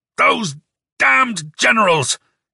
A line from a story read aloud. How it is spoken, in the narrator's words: He yelled